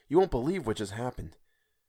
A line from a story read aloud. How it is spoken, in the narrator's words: whispered